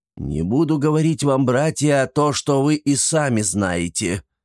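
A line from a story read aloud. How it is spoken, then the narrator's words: Slightly hoarse, confused. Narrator (Russian): начал немного хрипло и растерянно хмурый отец Плутон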